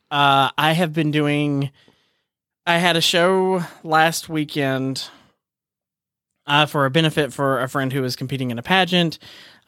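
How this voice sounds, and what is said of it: Tired, exhausted-sounding voice. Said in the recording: “if you can hear it in my voice, I'm exhausted.”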